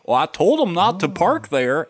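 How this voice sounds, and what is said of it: Texan cowboy accent. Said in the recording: “why would that guy have like a Texan cowboy accent?”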